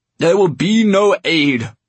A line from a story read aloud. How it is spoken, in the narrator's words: he roared